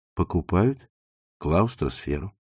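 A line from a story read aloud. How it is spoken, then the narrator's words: Plain. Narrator (Russian): сказал Макс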